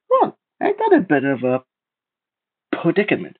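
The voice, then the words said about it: High, squeaky character voice. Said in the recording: “a high and squeaky voice”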